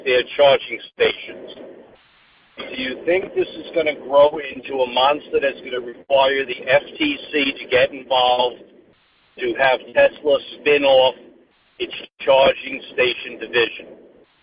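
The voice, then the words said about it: New York accent. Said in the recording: “I had no idea ... was from New York at all, whatsoever ... we love your accent.”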